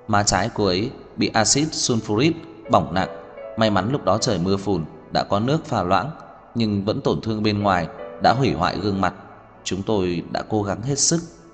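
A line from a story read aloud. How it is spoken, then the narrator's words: Soft sorrowful sigh. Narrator (Vietnamese): Vị bác sĩ khẽ thở dài mất mát nói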